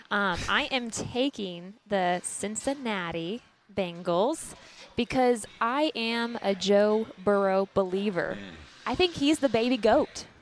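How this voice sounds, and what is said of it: Texas accent. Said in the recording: “She took over that Texas accent. ... she's fully adopted. ... a lot of thick accents and, yeah, so I picked up on it real quick.”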